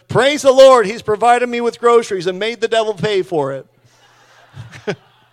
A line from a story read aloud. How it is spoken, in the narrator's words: the little old lady shouted